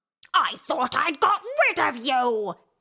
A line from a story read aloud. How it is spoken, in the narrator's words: she screeched